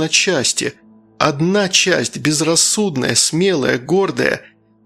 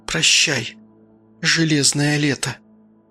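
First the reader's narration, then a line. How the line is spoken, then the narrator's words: Whisper. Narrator (Russian): прошептала Полина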